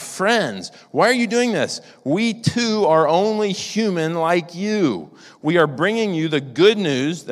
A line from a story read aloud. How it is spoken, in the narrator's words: Barnabas and Paul, heard of this, they tore their clothes and rushed into the crowd shouting